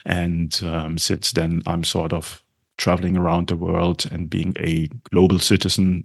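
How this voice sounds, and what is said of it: German accent. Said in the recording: “as you can tell from my accent, I'm originally from Germany”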